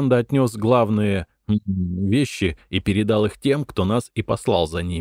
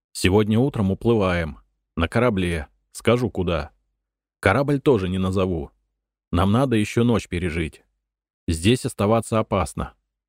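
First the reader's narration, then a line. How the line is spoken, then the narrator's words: Calmer, low voice. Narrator (Russian): уже более спокойным тоном и вполголоса сказал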